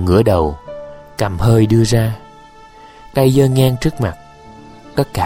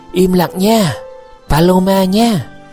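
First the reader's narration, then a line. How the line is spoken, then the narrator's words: Distant shout from below. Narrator (Vietnamese): Vũ Lượng đứng dưới nhà thét lên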